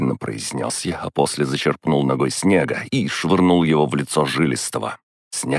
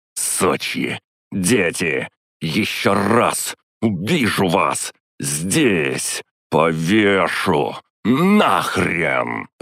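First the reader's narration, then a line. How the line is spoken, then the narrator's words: Growling while striking blows. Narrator (Russian): рычал я, нанося удар за ударом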